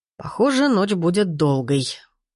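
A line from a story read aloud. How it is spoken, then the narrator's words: Sighing. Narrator (Russian): вздохнул Сергей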